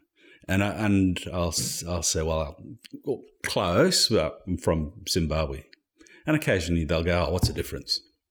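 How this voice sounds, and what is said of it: Zimbabwean accent, sounds South African. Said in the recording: “"Oh, you're from South Africa." ... Because of the accent? ... Yeah. Yeah.”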